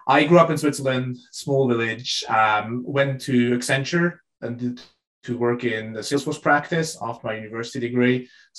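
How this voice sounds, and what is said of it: Swiss-accented English. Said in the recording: “I'm from Switzerland originally, so that's why it's not an American or British accent”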